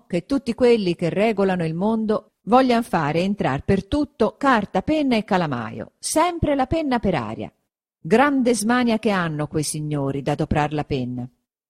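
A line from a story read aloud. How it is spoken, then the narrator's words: Exclamation. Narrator (Italian): esclamò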